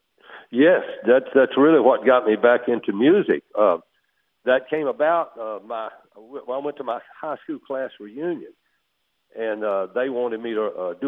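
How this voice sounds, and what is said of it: Southern US accent. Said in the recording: “you're from Atlanta, Georgia. I can kind of tell by the accent”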